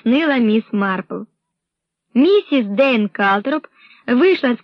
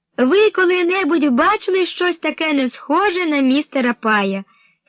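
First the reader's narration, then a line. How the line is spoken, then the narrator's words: Cheerful. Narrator (Ukrainian): сказала весело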